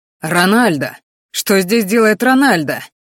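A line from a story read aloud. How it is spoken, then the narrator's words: Shouting. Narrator (Russian): закричал отец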